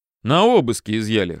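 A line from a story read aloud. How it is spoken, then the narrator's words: Snorting. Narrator (Russian): хмыкнул Федя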